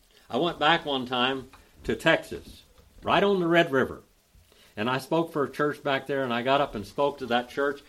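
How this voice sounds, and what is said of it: American southern accent. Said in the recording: “the accent that I have ... All of your southern accents are Scottish ... It's a Scottish accent ... the southern accent is also a Scottish accent”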